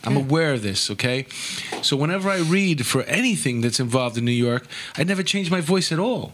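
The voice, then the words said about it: Heavy New York accent. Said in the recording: “I already have a heavy, heavy New York accent.”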